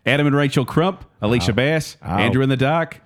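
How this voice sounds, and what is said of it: Bad put-on Australian accent. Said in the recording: “I'm doing the oldies in Australian accent... We know we did terrible accents”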